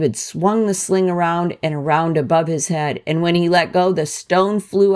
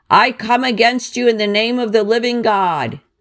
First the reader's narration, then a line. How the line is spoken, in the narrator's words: When he was close to Goliath, he shouted